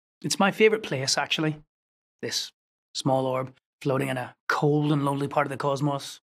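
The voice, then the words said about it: Belfast Northern Irish accent. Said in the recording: “the accent is from Belfast”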